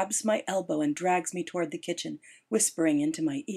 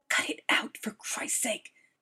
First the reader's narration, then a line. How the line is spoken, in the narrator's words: she hisses